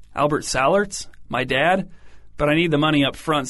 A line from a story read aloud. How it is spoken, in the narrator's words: said